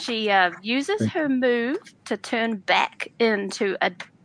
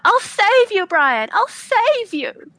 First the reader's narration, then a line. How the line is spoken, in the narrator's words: she yells out